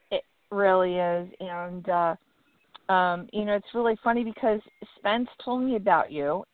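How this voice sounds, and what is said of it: Slightly rough voice. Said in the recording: “my voice is a little rough today”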